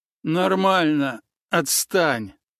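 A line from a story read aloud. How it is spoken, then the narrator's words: Breathless exhale. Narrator (Russian): выдохнул тот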